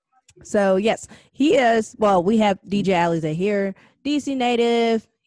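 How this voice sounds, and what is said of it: French accent, dropped S sounds. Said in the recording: “I've been dropping my S's all the time. I speak French for a first language”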